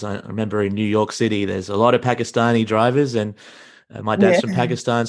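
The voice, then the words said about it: Strong Australian accent. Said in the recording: “speak with a really Aussie-Australian accent”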